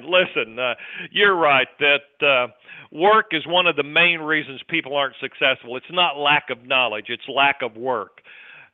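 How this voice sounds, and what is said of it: Deep South accent. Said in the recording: “you ain't from around here, are you? ... Off the deep south ... my accent gives me away”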